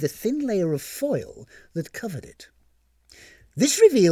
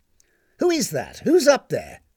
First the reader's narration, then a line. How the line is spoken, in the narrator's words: barked Mrs